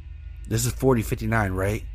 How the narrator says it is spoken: I corrected

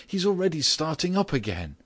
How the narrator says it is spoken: she suddenly cried out

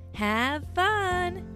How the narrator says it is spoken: said Cloud

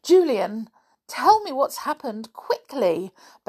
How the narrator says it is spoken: begged Mrs

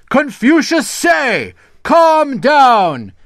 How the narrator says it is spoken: shouted the servant

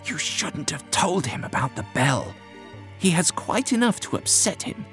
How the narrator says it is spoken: Whittam hissed to the doctor

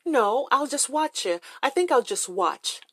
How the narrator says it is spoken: I said

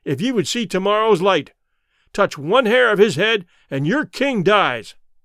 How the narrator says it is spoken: I shouted in their language

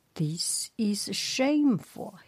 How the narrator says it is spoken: yelled at his comrades

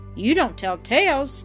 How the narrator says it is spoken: exclaimed Walter with a look of surprise

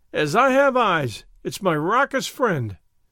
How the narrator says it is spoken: he cried

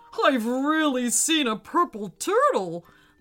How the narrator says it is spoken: laughed the monster nastily

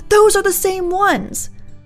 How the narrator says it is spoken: Mom screamed

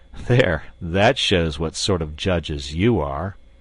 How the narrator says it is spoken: said sarcastically

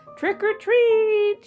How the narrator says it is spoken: shouted a scary ghost

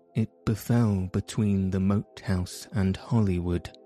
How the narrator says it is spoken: replied Sir Daniel calmly

